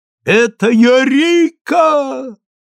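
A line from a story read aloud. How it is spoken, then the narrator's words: Distant shout. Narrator (Russian): закричал Станислав где-то далеко-далеко от меня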